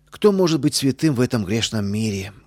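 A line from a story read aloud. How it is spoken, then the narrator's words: Deep sigh, defensive. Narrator (Russian): глубоко вздохнула она, оправдываясь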